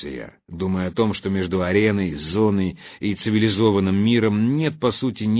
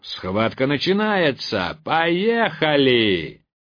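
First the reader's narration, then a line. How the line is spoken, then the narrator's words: Shouted. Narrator (Russian): прокричал голос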